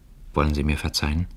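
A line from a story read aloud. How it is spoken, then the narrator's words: Very quiet. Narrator (German): sagte sehr leise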